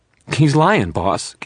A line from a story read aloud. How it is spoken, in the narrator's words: Gimpy Lawrence said again, but his voice was shaking